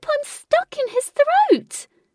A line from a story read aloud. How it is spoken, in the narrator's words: Jane cried from the boss's mouth